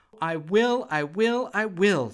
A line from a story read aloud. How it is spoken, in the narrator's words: she laughed, for the piano was the most perfect present she had ever been given